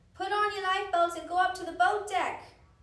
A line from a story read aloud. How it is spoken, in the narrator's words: the man shouted